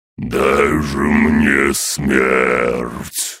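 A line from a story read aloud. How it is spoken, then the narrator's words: Dragon's roar. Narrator (Russian): Ледяной дракон проревел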